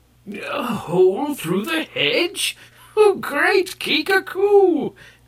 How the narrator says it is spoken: cried the gray-bearded Kai

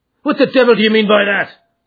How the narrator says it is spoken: he roared with his fists clenched

